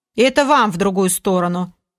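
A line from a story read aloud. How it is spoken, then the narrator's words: Grumpy, sleepy grumble. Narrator (Russian): Пробурчал недовольный и сонливый Олег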